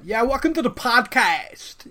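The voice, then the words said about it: Boston accent. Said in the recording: “sounded like I had a Boston accent.”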